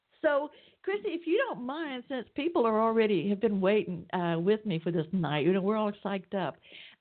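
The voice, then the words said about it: Atlanta, Georgia regional accent. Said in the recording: “You might even tell from my accent I'm down here in Atlanta, Georgia.”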